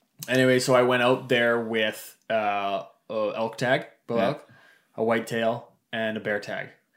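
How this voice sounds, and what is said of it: Canadian East Coast accent. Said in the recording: “I got a bit of an accent. East Coast, PEI.”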